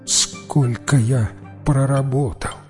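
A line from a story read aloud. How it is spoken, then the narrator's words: Barely audible question. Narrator (Russian): чуть слышно спросил он у монаха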